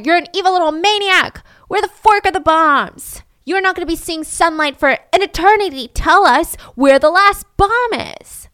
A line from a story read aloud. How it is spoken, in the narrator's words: they would scream at her